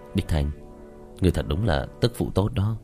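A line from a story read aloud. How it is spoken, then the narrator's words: Heavy-hearted sigh. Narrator (Vietnamese): Diệp Thiếu Dương trong lòng trầm xuống, thở dài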